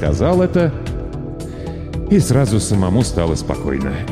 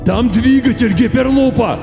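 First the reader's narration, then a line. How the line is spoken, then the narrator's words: Shouted. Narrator (Russian): крикнул мистер Пирсинг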